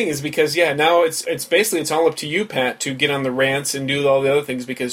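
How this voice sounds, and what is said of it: Usual voice. Nothing is said of it.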